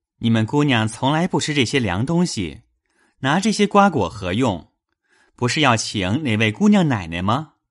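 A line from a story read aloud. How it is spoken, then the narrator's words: Laughing. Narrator (Chinese): 雪雁笑道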